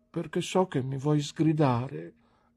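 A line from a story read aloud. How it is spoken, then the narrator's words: Broken voice. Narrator (Italian): rispose con voce rotta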